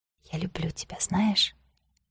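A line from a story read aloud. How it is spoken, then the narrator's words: Whisper. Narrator (Russian): прошептала она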